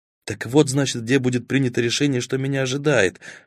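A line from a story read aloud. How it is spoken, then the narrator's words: Whispered. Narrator (Russian): шепнул тень, обращаясь к Баст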